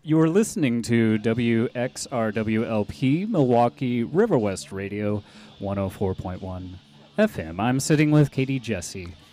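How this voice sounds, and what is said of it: Polished radio announcer voice. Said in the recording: “That voice was very radio. ... This is my radio voice.”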